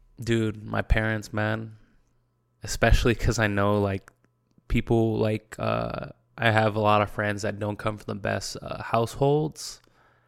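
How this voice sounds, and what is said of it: Emotional, choked-up voice. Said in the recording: “I rarely get emotional on this fucking podcast ... I don't know why I'm getting emotional right now ... I guess I'm getting a little bit emotional”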